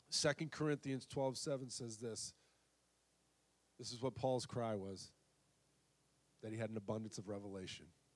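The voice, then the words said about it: Strained voice, losing his voice. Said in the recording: “I am losing my voice”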